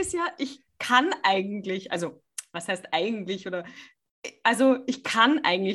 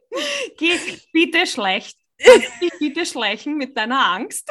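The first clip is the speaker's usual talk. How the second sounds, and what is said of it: Put-on Viennese accent. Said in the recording (German): “auf Wienerisch ... Ich liebe das, wenn du Wienerisch redest ... Singst du es uns auf Wienerisch vor?”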